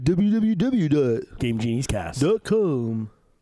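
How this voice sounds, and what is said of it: Odd put-on voice. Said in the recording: “That was a weird voice.”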